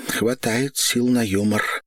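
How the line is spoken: Sighing. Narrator (Russian): вздохнула Ольга

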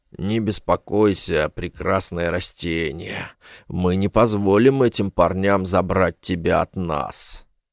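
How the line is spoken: Drunken mumble. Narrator (Russian): Гость по имени Даец, который уже перебрал мартини, пробормотал

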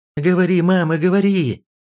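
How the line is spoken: Urgent shout. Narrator (Russian): закричал Падрейк

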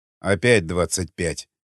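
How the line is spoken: Grumbling. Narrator (Russian): проворчал варяг

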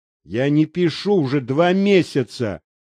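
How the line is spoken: Angry. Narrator (Russian): зло проговорил он

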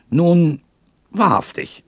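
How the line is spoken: Called out. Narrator (German): rief der Waldhornist

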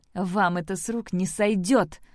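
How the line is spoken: Defiant shout, inwardly afraid. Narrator (Russian): дерзко крикнула Сэм, хотя сама особой храбрости не чувствовала и в отчаянии оглядывалась

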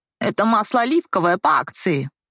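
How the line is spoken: Grumbling. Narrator (Russian): проворчала продавец

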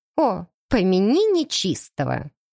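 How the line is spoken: Exclamation. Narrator (Russian): воскликнула Кристина Дмитриевна

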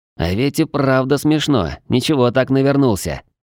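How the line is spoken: Grumbling turning to quiet giggle. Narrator (Russian): Ворчание быстро сменилось тихим хихиканьем

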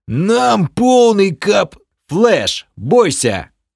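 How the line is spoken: Yelling over loud noise. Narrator (Russian): Заорал я, на мгновение перекрывая не только вопль Бома, но и неумолчный шум льющейся воды

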